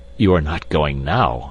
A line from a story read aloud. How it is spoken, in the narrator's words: exclaimed the wagerer